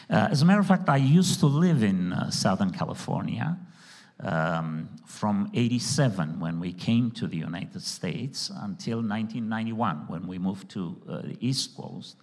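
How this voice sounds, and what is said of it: Heavy non-native English accent. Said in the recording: “my English as a second language ... my heavy accent, maybe some mispronunciations”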